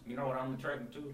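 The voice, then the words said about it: Speaks in a put-on accent. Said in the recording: “Why do you keep getting these like accents?”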